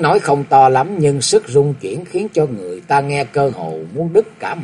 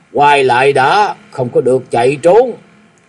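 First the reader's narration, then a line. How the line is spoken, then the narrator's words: Old man, gruff voice. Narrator (Vietnamese): tiếng người già giọng ồm ồm nổi lên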